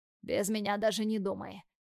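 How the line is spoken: Husky commanding. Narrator (Russian): с хрипотцой приказывает Тим

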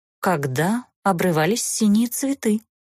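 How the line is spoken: Mysterious half-elf remark. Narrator (Russian): Загадочно обронил полуэльф

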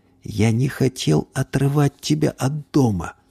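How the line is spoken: Whisper. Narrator (Russian): прошептал

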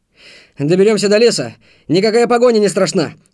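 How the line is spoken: Shout. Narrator (Russian): крикнул Антон

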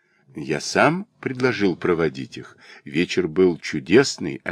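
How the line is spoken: Plain. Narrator (Russian): ответил я

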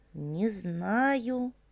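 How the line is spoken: Mumbled. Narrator (Russian): пробормотал Виталик

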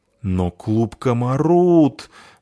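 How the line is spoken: Moaning. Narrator (Russian): застонал толстяк

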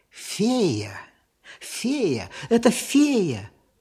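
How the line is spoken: Whisper. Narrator (Russian): послышался шепот

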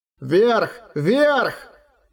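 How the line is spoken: Shouting. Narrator (Russian): кричал Роран

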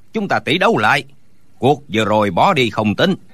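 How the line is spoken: Shouted. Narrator (Vietnamese): Đinh Bất Tứ la lên

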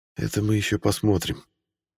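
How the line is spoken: Quiet murmur. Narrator (Russian): тихо произнес я

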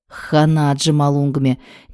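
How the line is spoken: Disbelieving mutter. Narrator (Russian): не веря глазам и ушам своим, пробормотала Вероника

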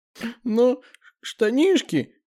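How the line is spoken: Speaking through sobs. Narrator (Russian): через всхлипы говорит Лиза

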